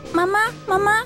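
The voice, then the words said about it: Child's voice shouting. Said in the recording (Spanish): “No grites”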